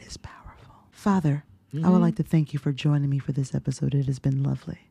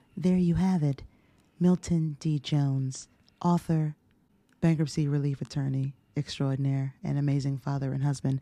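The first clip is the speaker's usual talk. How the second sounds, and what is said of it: Smooth NPR radio announcer voice. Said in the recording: “let me get my NPR voice on”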